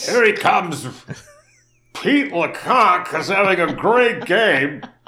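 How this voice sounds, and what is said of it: Imitates a sports announcer's voice. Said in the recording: “Harry Carey ... Harry Carey impression”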